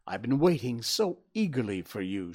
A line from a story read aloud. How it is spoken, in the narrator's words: she cried